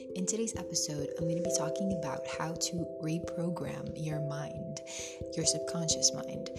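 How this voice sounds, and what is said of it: Funny-sounding just-woke-up voice. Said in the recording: “my voice sounds funny, it's because I woke up just like an hour ago and it's really early in the morning”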